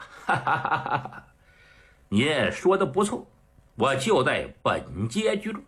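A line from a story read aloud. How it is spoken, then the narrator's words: Old man laughing. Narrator (Chinese): 老头一笑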